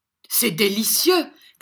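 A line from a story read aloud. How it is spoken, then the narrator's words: Laughing shout. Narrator (French): cria Mantalini, déployant en rire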